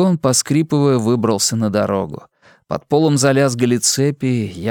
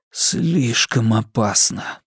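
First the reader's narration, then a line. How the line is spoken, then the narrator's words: Barely audible whisper. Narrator (Russian): прошептал я, еле слышно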